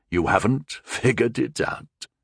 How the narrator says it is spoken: chuckled Valwyn

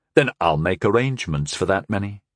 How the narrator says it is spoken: I replied evenly

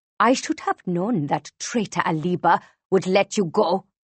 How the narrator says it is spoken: she hisses

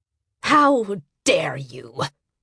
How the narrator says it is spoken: Yunli Hado spat at Abumwe

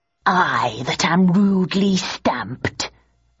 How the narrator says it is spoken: muttered Richard

